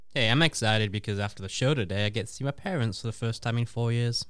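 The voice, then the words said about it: English accent. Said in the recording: “the accent gives you away a little bit that you're from England”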